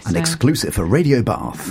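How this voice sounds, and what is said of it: Full-on radio presenter voice. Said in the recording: “my full-on radio voice”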